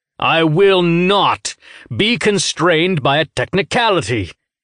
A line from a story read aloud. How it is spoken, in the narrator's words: Goddard shouted